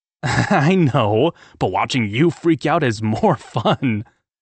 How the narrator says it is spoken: I laughed

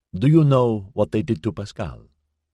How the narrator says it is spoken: Sylvester said

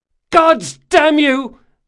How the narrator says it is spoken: Mazooka cried

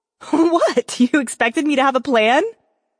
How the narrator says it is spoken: Twitch laughed

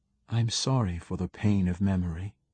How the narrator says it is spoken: she said softly

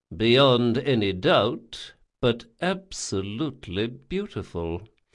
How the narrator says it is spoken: he said slowly

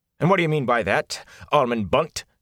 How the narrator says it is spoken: asked sharply

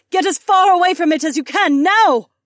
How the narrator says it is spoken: Cat shouted over the radio

